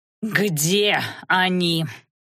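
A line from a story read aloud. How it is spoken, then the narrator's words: Furious growl. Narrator (Russian): прорычал некромант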